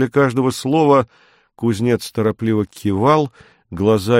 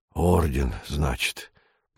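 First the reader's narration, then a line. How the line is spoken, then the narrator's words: Mutter. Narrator (Russian): пробормотал он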